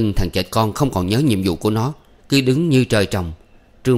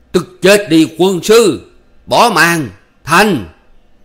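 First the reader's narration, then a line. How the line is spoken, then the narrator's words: Loud shout. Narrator (Vietnamese): Trương Phi bèn hét to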